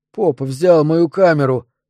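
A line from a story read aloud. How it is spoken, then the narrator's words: Tearful hoarse wheeze. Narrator (Russian): просипел Кевин, глядя на отца мокрыми, покрасневшими глазами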